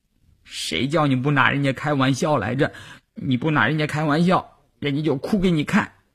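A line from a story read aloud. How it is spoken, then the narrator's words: Crying. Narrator (Chinese): 季杰一边哭一边说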